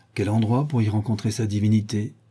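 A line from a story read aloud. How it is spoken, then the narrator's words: Plain. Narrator (French): dit Lord Henry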